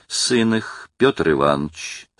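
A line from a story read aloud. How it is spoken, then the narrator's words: Calm. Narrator (Russian): спокойно начала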